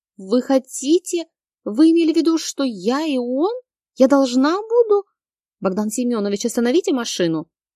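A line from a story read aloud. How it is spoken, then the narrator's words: Loud shriek. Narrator (Russian): Заверещала я так громко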